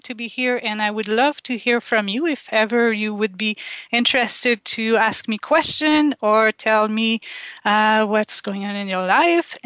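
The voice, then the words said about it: French Canadian accent. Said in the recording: “You can hear I have a little accent. I grew up in Quebec in Canada and we speak French”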